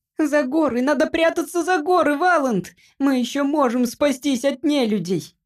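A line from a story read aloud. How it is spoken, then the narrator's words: Shrieked. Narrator (Russian): завизжал Джимпер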